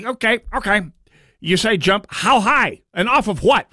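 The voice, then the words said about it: Imitates another person's voice. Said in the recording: “my Waltz impression.”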